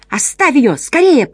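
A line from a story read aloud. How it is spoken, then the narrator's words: Shout. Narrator (Russian): прокричала она коту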